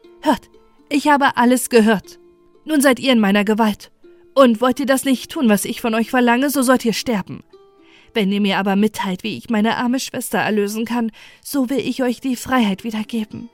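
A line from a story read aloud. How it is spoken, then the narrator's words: Calling out. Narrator (German): Rasch trat sie vor den erschrockenen Vögeln und rief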